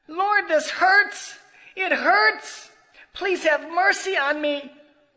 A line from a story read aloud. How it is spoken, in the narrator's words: Luis cried louder and shouted